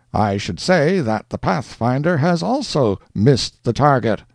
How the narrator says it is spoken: cried Major Duncan

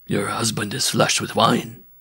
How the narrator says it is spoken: the bareback rider whispered

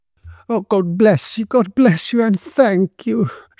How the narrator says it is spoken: she exclaimed

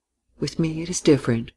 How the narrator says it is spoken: she said quietly

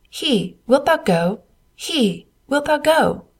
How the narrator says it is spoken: who laughed and jeered

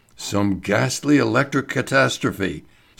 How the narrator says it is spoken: Sir George Egerton murmured

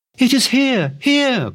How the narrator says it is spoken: cried the girl, full of excitement

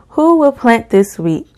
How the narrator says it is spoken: cried the little red hen

